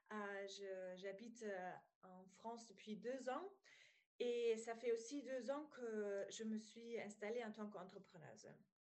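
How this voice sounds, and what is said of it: Slight German accent in French. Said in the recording (French): “je viens d'Allemagne, donc si euh, voilà, vous entendez un petit accent, c'est allemand.”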